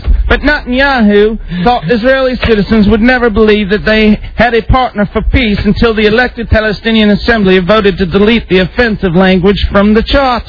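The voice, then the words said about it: Put-on British accent. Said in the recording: “He's aced that British accent”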